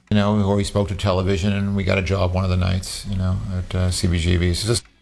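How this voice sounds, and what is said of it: Thick Queens New York accent. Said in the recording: “very thick Queens accent with the New York drawl”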